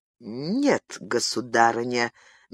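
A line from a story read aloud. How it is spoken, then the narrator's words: Slow. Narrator (Russian): медленно произнес герцог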